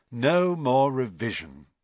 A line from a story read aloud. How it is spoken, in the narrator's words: Ron sighed happily